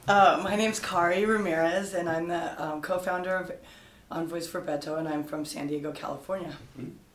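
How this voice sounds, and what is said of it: Hoarse, strained voice. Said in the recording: “Everybody's hoarse from cheering for Beto. ... lot of chanting yesterday. ... Screaming.”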